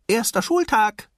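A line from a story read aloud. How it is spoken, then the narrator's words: Called out. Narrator (German): rief er seinem Vater zu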